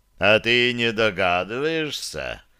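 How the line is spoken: Purring. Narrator (Russian): мурлыкнул тот

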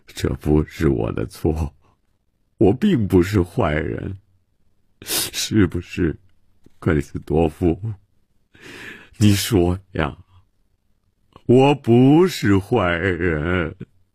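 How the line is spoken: Self-pitying lament. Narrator (Chinese): 曼西沃自怨自叹地说

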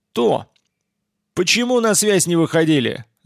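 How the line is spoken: Yelling loudly. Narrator (Russian): заорал я на всю реку

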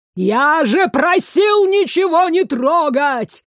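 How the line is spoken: Hysterical distant scream. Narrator (Russian): Истерически завопил со второго этажа мэтр

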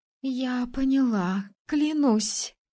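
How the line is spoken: Slightly trembling voice. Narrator (Russian): Слегка дрожащим голосом заявила

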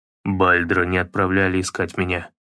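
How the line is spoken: Muttered. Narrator (Russian): пробормотал он

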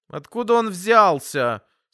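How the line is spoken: Petulant question. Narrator (Russian): спросил я капризным голосом

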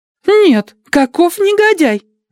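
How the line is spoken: Young woman exclaiming. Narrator (Russian): воскликнула молоденькая Адати

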